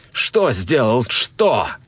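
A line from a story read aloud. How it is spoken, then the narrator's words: Shouted. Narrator (Russian): Закричал я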